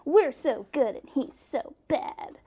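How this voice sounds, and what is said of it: Imitates another person's voice. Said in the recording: “That's a great Kenneth Starr ... impression. ... Really good.”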